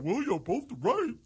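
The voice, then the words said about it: Imitates another person's voice. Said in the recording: “that is a pretty good impression of me.”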